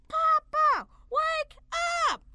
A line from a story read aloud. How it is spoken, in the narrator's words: Jason yelled in the loudest voice possible